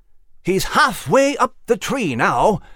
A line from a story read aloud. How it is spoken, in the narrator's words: Nigel exclaimed